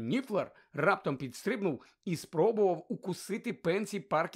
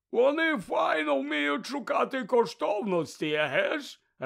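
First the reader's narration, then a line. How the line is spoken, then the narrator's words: Joyful announcement. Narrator (Ukrainian): радісно повідомив Гегрід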